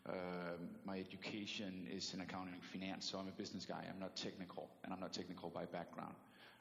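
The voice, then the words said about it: Danish accent. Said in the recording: “I'm from Denmark, so I do still carry an accent.”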